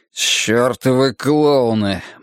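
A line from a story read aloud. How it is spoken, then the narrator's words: Gloomy. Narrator (Russian): мрачно проговорил Бадди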